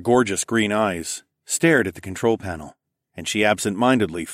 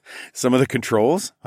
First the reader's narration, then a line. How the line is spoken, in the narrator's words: I laughed